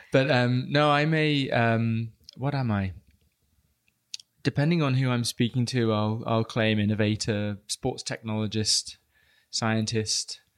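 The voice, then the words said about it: British English accent. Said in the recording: “I am British, so apologies to anyone that can't quite understand me ... just by the nature of the accent”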